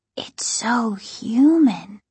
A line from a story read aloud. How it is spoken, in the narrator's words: Casey whispered